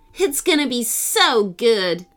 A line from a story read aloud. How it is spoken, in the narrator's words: Julie, a girl from Ella's class, exclaimed